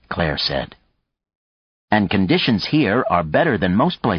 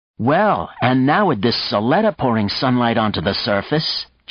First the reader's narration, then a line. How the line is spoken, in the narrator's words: Jessica exclaimed